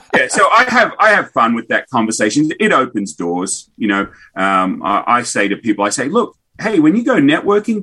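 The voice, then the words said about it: Australian accent. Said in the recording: “where's your accent come from? ... coming from Australia”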